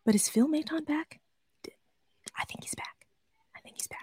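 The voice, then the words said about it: Whispering. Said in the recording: “I'm only going to whisper this ... I'm only whispering it ... There's your ASMR.”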